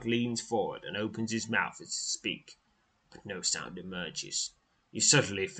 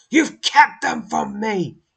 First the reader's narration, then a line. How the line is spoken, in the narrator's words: he snarls